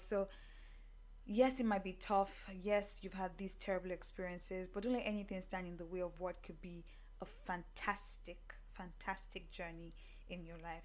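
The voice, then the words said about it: Voice gets lower and softer. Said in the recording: “my voice just kept going lower and lower, like church voice, bedroom voice”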